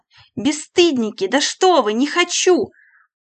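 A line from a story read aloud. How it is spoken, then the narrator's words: Shouting. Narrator (Russian): уже кричала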